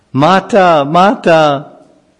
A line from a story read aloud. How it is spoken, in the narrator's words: Hiranyakashipu, he cried out